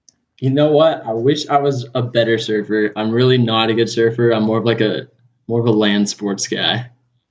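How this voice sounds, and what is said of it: Laid-back Southern California surfer accent. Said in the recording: “you sound like a surfer boy? ... It's just part of growing up in Southern California ... you do have a cool voice”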